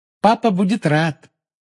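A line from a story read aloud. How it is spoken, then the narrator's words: Cheerful promise. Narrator (Russian): весело пообещала Полумна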